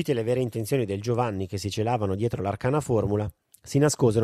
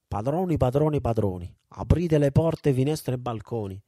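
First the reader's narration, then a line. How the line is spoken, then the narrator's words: Uncertain exclamation. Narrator (Italian): il Giovanni esclamò con voce incerta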